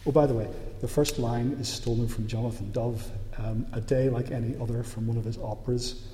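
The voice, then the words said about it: Northern Irish accent. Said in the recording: “I just know the Northern Irish accent is really hard to understand”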